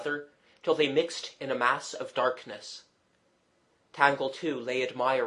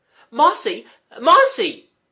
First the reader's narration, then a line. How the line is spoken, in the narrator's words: she cried aloud in terror